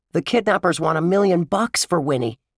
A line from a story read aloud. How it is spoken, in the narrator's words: Jimmy Fallon blurted out